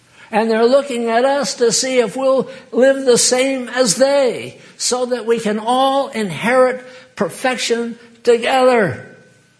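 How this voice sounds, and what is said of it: Yelling preacher delivery. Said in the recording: “Why am I yelling? I don't need to yell.”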